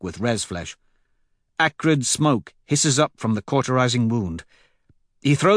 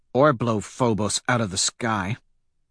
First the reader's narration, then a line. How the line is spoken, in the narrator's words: Holiday mutters